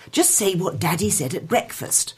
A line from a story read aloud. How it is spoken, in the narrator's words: the mother hissed